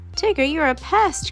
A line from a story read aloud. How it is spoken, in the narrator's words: cried Rabbit